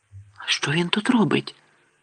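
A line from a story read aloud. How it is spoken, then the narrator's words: Whispered. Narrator (Ukrainian): прошепотів Гаррі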